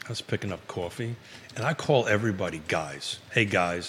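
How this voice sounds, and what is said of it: New York accent. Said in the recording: “it's a New York accent ... my New York accent”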